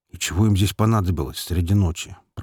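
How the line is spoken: Grumbling to no one. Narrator (Russian): пробурчал другой негр, никому конкретно не обращаясь

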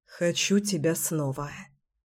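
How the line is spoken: Hoarse whisper. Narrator (Russian): хрипло шептал Кирилл

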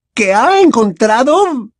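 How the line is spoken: Shrill repetition. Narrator (Spanish): repitió la profesora Umbridge con voz chillona

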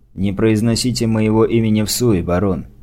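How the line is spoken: Quiet remark. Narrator (Russian): негромко заметил

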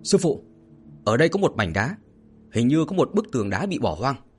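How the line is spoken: Loud shout. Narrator (Vietnamese): ba đồ lỗ hét lớn

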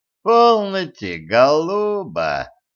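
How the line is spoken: Drawled. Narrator (Russian): протянул Кощей

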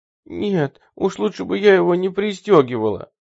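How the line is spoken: Moaning. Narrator (Russian): простонала Сэнди

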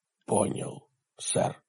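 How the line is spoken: Whisper. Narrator (Russian): прошептал Хорхе

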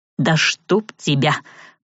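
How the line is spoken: Grumbling. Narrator (Russian): проворчал Савелий

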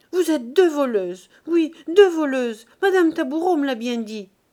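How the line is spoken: Bursting into sobs. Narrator (French): éclatant en sanglots

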